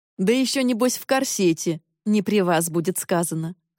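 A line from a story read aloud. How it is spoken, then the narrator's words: Wry snort. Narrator (Russian): хмыкнул кузен Джок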